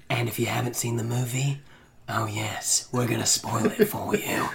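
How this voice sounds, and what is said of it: Quiet put-on character voice. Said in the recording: “I couldn't project very well while doing that voice.”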